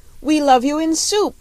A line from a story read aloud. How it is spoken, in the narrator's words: they yelled